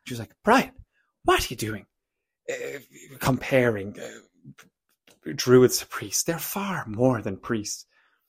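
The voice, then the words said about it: Put-on Cork Irish accent. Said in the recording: “that's my attempt of my mother's Cork accent, which she might not appreciate”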